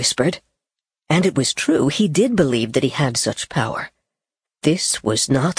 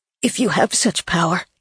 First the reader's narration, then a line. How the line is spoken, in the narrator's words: Gabe whispered